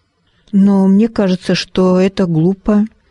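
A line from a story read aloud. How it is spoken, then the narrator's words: Uncertain. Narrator (Russian): неуверенно прокомментировала Арабелла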